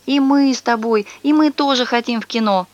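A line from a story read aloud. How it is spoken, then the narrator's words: Group whining and whimpering. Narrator (Russian): они сейчас же все заныли, захныкали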